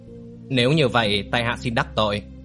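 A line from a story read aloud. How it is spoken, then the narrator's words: Old man, wry smile. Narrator (Vietnamese): Lão Vĩnh Tường cười nhạt nói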